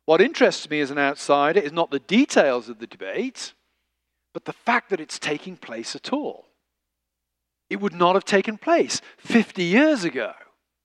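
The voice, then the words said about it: Non-American foreign accent. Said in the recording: “You can tell from my accent I'm an outsider. I am now an American citizen”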